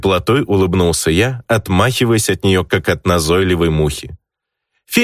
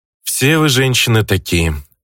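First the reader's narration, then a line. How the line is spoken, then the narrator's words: Sighing. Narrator (Russian): Вздохнул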